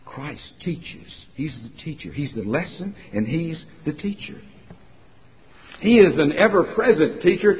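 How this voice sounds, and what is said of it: Virginia accent. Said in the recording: “you hear a Virginia accent”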